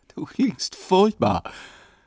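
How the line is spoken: Laughing. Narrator (German): sagte Karin lachend

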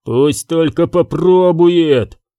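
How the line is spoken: Menacing growl. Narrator (Russian): грозно рыкнул Канис

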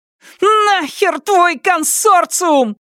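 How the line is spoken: Furious roar. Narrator (Russian): взревела Нелит

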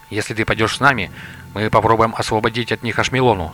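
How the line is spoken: Plain. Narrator (Russian): сказал Лотар

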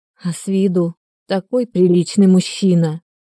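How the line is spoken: Forced out with difficulty. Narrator (Russian): С трудом выдавила из себя

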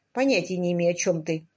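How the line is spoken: Grumbled. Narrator (Russian): проворчал он

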